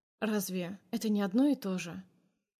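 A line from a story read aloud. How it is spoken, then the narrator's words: Hoarse, forced out. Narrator (Russian): выдавливаю сипло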